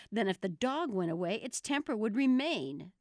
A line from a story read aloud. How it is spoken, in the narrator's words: the Queen exclaimed triumphantly